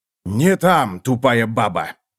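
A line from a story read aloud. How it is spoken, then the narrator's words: Bark. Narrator (Russian): рявкнул он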